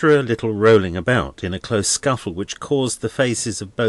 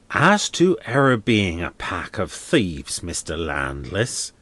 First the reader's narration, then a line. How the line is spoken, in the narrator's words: said the man, as he spat out some blood